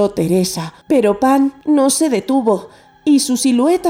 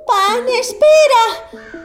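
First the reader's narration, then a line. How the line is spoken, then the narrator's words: Shouting while running. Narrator (Spanish): siguió gritando Teresa mientras corría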